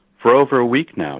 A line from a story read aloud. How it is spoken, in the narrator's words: she said